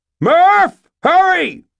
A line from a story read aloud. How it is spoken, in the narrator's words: screamed